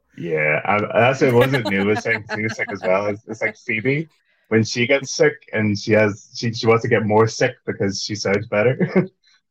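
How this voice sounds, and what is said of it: Deep, hoarse voice after losing it. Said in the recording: “I lost my voice yesterday, so I sound a bit like Barry White ... the big sexy voice”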